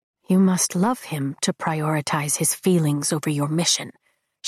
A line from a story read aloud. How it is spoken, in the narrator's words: she says quietly, like it's a revelation